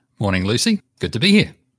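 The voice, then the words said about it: New Zealand accent. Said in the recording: “he's from New Zealand. You'll pick this up soon as he speaks. He's got a New Zealand accent.”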